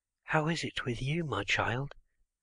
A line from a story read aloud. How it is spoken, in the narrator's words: they whisper it so low that he may not hear